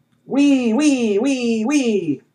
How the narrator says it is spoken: Heckholler cackled

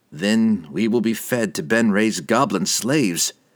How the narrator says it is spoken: Dinan replied dryly

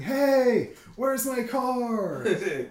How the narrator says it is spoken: screaming

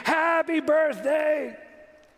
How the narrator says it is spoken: we all screamed

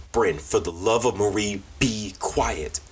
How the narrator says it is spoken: Sarah pleaded with her daughter

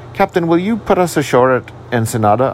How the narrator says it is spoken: I asked

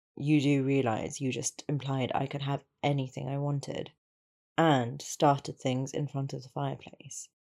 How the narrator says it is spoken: Draco said dryly

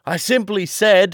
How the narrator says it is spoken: shouted John

